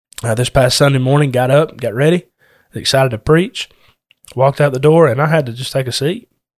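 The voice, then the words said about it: Sick-sounding voice. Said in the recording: “you may be able to hear it in my voice, I'm going through some kind of sickness right now”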